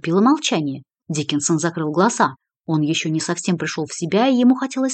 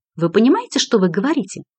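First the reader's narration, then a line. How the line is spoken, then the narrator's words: Indignant question. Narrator (Russian): возмущенно спросила Мельви Пухвель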